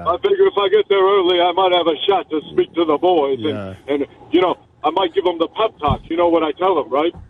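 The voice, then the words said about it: Poor impression sounding like Yogi Bear. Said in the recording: “The worst impersonation... that was Yogi Bear”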